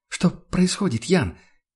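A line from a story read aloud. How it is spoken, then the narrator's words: Barely audible question. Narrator (Russian): переспросила она едва слышно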